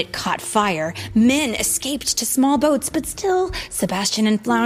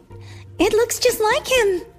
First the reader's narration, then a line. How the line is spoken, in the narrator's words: she cried